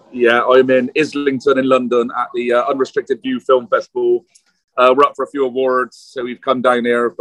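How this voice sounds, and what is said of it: Noticeable regional accent. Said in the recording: “you got two things to contend with. You have got my accent”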